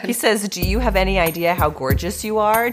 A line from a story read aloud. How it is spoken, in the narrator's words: Jeffrey French said in a husky voice